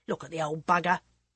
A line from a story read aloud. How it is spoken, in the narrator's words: said scornfully